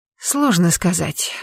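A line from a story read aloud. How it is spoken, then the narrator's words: Sighing. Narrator (Russian): вздохнула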